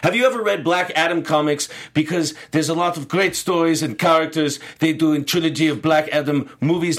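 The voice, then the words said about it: Put-on Eastern European accent. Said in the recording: “I have given a Eastern European accent, probably completely wrongfully”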